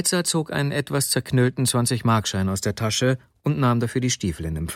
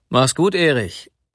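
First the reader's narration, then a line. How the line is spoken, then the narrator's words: Calling after someone. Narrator (German): rief er noch dem jungen Manne nach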